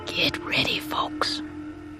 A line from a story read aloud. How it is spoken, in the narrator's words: Tac whispered